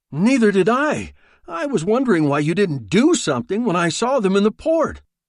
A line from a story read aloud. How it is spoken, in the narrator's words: Arundel exclaimed